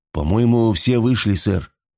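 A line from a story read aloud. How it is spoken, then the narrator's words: Uncertain. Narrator (Russian): неуверенно проговорил второй механик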